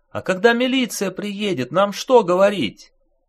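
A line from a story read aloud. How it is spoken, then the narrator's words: Woman shouting over noise. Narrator (Russian): Перекрывая шум, крикнул сверху женский голос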